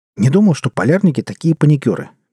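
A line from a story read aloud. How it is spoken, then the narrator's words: Sudden exclamation. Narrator (Russian): неожиданно воскликнул Щеглов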